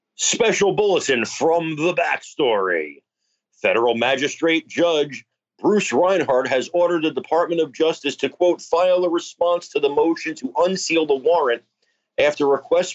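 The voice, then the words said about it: News announcer voice. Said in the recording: “deliver that like a breaking news bulletin ... Use your announcer voice ... Fantastic announcing”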